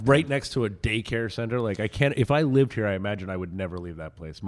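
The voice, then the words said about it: Raspy voice. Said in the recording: “you can hear raspy in my voice”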